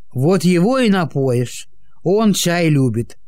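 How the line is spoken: Wry snort. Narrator (Russian): хмыкнул Никита

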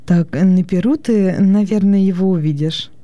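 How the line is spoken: Warm, smiling. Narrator (Russian): ласково улыбаясь, сказала Акта

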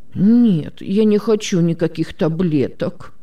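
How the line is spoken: Muffled whimpering. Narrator (Russian): захныкал Тим, закрывая рукой рот

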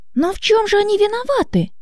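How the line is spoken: Indignant objection. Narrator (Russian): возмущенно возразила Мария

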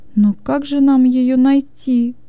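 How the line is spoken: Whining. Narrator (Russian): захныкала

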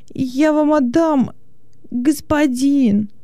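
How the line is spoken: Exclaimed. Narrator (Russian): воскликнул он

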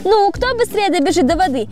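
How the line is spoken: Happy laughing lion cub. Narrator (Russian): Львенок счастливо засмеялся

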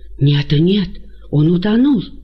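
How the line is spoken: Frightened exclamation. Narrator (Russian): испуганно восклицает Акиба

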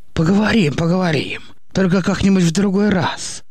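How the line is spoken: Gloomy mumbling. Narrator (Russian): мрачно бубнил Никита

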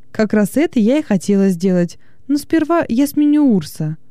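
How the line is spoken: Cheerful reply. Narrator (Russian): весело ответила

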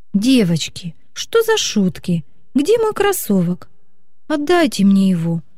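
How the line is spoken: Tearful exclamation. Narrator (Russian): Со слезами на глазах воскликнула Вика

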